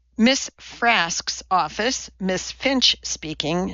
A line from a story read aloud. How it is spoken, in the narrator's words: said the voice